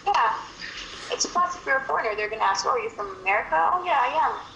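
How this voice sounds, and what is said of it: Sweet, soothing Tagalog-accented English. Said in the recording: “you have this Tagalog accent, right? ... I like that Tagalog accent. It sounds very sweet and romantic ... it sounds very soothing and very romantic”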